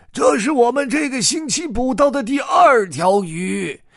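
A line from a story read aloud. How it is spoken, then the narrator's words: Fisherman calling out. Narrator (Chinese): 其中一个渔民朝他喊着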